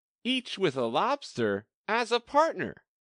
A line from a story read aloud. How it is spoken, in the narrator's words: cried the Griffin